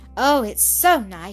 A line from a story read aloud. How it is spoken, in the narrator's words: she cried